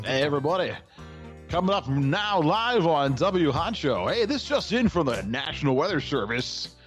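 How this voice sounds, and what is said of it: Exaggerated radio announcer voice. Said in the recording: “radio voice”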